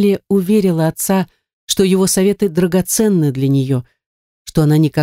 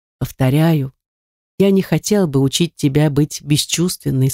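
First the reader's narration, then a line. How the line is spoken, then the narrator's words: Plain. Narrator (Russian): сказал он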